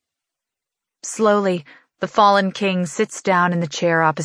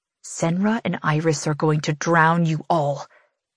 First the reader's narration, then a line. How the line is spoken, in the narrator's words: he hisses